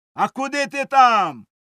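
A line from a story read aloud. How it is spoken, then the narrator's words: Worker shouting from aside. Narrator (Ukrainian): закричав якийсь робочий збоку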